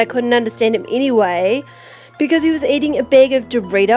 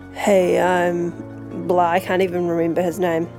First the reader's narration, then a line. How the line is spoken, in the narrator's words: He was like a goth or something, and he mumbled